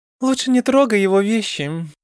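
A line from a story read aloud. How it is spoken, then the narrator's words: Lazy. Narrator (Russian): лениво посоветовала Джидана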